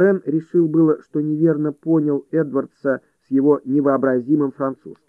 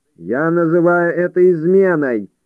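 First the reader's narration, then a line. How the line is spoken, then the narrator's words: Booming loud voice. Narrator (Russian): прогремел голос Геркулеса, расщепителя атомов, перекрыв скрип колес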